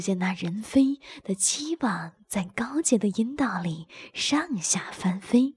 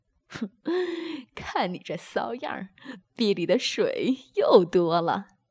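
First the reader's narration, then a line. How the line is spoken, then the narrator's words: Laughing. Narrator (Chinese): 宋明笑道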